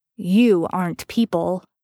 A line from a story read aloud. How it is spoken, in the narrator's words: Dean growled threateningly